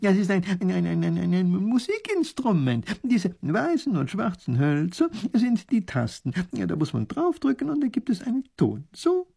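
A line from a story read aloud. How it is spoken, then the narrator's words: Laughing professor. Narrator (German): lacht der Professor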